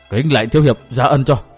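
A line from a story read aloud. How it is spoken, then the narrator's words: Weak old man's voice. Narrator (Vietnamese): Lão thốt với giọng yếu ớt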